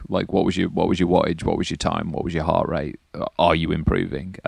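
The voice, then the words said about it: British accent. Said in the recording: “Always the good British accent... The accent.”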